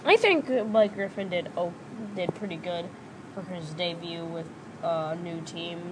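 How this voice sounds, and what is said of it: Weird-sounding voice after illness. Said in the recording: “coming back from a sickness ... My voice sounds weird.”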